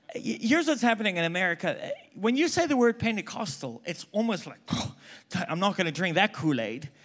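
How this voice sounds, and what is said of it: Mixed South African accent. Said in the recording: “I'm South African, if you haven't picked up by now... I don't even know what my accent is... I'm completely messed up right now.”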